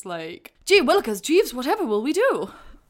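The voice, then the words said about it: Mock British soldier accent. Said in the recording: “I laughed out loud at the accents on the British soldiers... That's not even a British accent, is it?”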